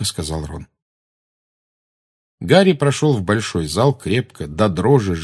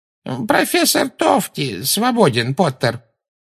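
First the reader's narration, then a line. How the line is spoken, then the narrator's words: Creaky voice. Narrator (Russian): проскрипел Флитвик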